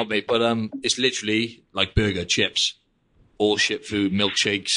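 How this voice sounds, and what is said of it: Usual voice. Nothing is said of it.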